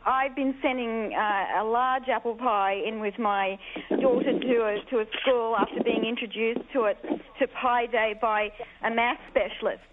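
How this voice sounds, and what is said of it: Australian accent. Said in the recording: “As you can tell by the accent, I'm an Australian”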